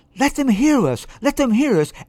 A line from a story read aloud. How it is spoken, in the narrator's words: exclaimed the excited viola section in one voice